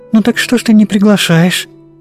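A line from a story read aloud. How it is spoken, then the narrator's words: Quick question. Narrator (Russian): быстро спросила Вера Ивановна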